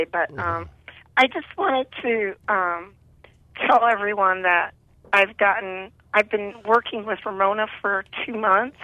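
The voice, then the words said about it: Weak, fading voice. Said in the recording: “my voice is it's going away”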